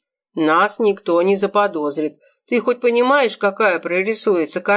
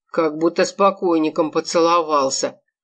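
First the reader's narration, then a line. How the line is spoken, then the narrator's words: Snorting grunt. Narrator (Russian): хмыкнул он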